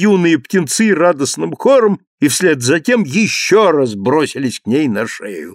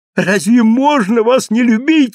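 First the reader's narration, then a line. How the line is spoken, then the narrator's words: Exclaimed. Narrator (Russian): воскликнула миссис Тетерби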